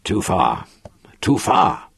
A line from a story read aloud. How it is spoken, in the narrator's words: Lannan growled